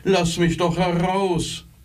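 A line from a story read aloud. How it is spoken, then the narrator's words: Muffled call from box. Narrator (German): rief der Küster in der Kiste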